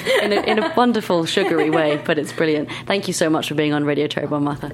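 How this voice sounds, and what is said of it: Lovely British accent. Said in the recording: “So lovely. ... I am a sucker for a British accent.”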